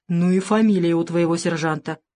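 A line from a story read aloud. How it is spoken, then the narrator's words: Snorting smirk. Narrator (Russian): хмыкнул дежурный помощник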